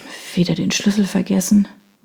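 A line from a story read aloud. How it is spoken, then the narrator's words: Sighing murmur. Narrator (German): murmelte sie, seufzend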